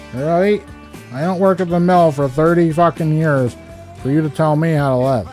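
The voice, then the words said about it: Put-on North Country accent. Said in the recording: “in the fucking North Country accent”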